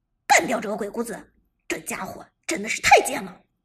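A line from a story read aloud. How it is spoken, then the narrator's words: Angry, low voice. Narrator (Chinese): 老 K 不由得恼羞成怒，沉声说道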